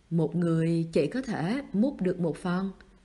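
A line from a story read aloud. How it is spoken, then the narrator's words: Cold voice. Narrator (Vietnamese): bác gái lạnh lùng nói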